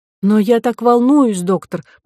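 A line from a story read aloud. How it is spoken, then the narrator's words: Trembling voice. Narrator (Russian): произнесла дрожащим голосом Ко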